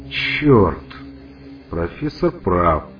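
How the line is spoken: Muffled growl. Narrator (Russian): глухо прорычал Лукаш

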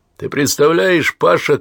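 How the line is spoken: Shouting. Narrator (Russian): кричал Куракин

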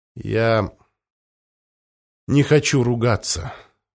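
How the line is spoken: Tired. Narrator (Russian): устало произнес Бомбадао

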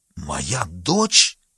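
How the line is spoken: Horrified exclamation, general. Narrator (Russian): воскликнул генерал, с ужасом

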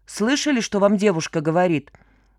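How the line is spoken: Mocking boy's voice. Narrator (Russian): насмешливо сказал бизнесмену белобрысый мальчишка

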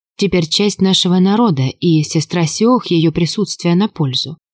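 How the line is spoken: Soft but confident reply. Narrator (Russian): ответила Валя мягко, но уверенно

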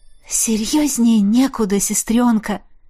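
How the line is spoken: Breathed out. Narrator (Russian): Выдохнула я

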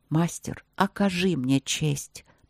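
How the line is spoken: Quiet male voice. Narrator (Russian): проговорил он тихо

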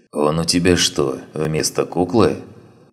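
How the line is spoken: Sighing abbess. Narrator (Russian): вздохнула настоятельница

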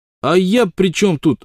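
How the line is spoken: Snapping retort. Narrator (Russian): огрызнулся Солтман

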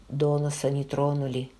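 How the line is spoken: Quiet. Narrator (Russian): тихо сказал

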